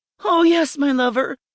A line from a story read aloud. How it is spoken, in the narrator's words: I cried out while moving my body with his